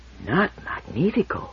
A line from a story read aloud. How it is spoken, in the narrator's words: Toran whispered the question